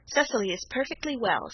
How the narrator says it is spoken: said Aunt Janet sharply

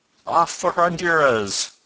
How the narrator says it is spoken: cried Ned gaily

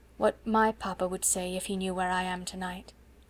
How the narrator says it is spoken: she said in a low voice

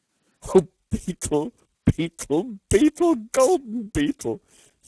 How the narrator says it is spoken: sobbed Storky

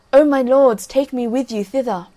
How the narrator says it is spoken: he cried out

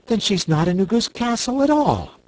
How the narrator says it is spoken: cried Dorothy

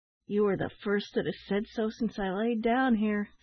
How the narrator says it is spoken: sighed the man, falling back heavily

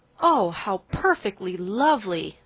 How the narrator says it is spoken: three of the girls cried

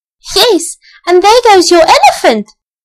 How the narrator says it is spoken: shouted Elsie

